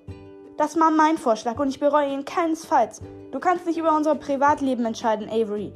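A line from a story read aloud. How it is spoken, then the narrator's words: Angry call. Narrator (German): rief ärgerlich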